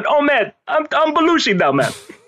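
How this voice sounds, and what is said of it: John Belushi impression. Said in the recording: “who played Belushi ... Just stealing your impression.”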